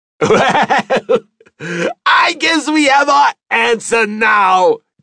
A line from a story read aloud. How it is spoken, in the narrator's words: shouted above the laughter